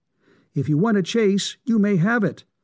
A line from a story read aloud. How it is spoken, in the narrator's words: exclaimed the boy